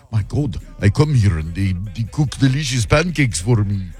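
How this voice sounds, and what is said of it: Put-on Eastern European accent. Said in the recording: “that was a weird accent ... I was Eastern Europe somewhere”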